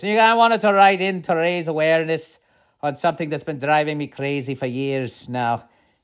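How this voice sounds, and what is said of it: Bad put-on Irish accent. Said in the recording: “you're going to listen to my bad Irish accent throughout all this”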